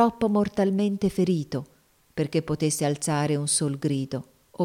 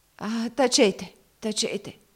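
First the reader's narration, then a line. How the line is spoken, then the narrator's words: Choking, drowning-like voice. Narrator (Italian): esclamò la donna con un suono di voce come di persona che affoghi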